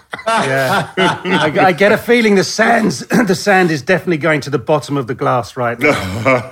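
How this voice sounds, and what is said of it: Slight British accent. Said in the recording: “you're over from the UK, so that accounts for your bit of an accent there. ... just a touch ... the British accent”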